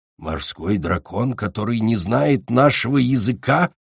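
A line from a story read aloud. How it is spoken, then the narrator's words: Growled. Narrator (Russian): прорычал он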